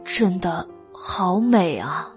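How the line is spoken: Irrepressible admiring sigh. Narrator (Chinese): 原药忍不住感叹

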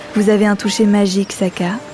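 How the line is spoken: Murmured. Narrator (French): murmurait-il

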